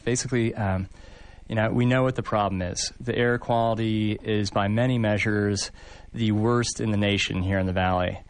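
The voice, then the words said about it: Rich resonant radio voice. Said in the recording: “Man, you've got the tubes. There's a radio voice.”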